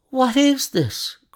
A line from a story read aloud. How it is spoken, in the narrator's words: cried Mr